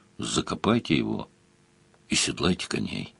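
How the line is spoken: Grumbled, pity mixed with disgust. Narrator (Russian): Ощутив смешанную с отвращением жалость, Сварог буркнул

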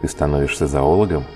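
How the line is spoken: Smirking snort. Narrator (Russian): хмыкнул Холдред

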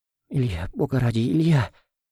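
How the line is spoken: Coughing and sobbing. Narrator (Russian): Она закашлялась, зарыдала

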